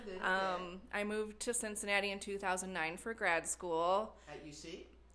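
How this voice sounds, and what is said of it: Slight Wisconsin accent. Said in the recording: “I grew up in a small town in Wisconsin ... you you might hear my accent a little”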